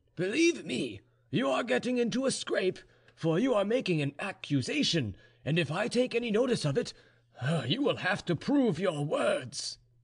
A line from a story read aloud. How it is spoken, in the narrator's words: cried the general